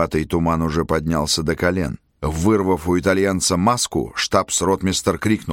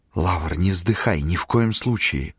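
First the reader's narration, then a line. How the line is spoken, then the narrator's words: Muffled strained wheeze. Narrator (Russian): просипел он сдавленным голосом, зажав нос и рот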